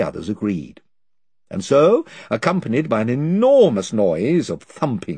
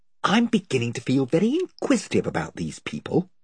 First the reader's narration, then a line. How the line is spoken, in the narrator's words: whispered Eustace to Edmund